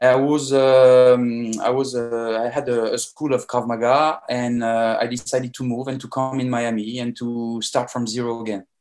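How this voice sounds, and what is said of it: French accent. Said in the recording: “I'm a French guy. As you can notice in my accent.”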